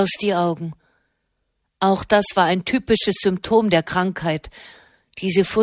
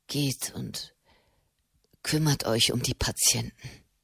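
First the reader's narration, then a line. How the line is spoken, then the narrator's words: Murmured. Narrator (German): murmelte Matteo Cenni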